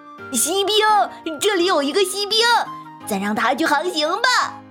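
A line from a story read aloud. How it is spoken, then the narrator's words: Boy shouting. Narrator (Chinese): 一个男孩喊道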